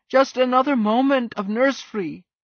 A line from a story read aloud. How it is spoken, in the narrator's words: they wailed